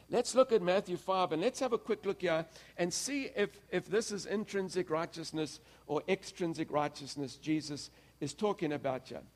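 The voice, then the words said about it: Accented, fast speech. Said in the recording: “Can you follow my accent when I talk so fast?”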